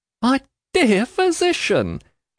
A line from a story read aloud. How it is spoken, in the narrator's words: cries Miss Flight